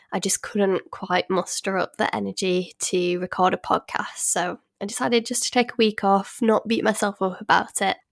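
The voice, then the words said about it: Voice still sounds unwell. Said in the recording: “if you can probably still tell from my voice, I wasn't feeling too well last week. I just had a bad cold. I'm still kind of suffering with the tail end of it”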